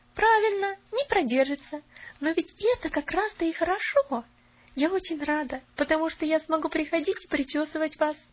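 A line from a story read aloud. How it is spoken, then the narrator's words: Cheerful chirping. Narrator (Russian): весело защебетала Поллианна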